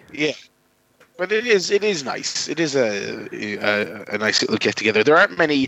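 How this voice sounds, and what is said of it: Hoarse, croaky voice. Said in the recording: “your voice is all hoarse and croaky”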